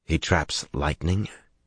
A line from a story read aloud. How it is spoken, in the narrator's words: He asked quietly